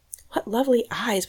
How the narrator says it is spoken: whispered Fanny

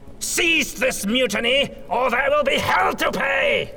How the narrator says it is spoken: Von Baumeister screamed

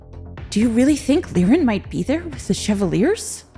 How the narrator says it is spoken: Robert asked nervously

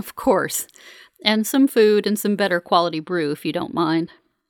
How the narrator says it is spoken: laughs softly and says

